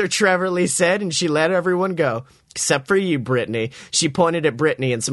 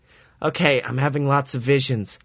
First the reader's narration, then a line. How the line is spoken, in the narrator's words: I said in a worried voice